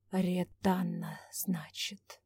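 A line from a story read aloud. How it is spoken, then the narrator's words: Purring under breath. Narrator (Russian): мурлыкнул себе под нос Трезор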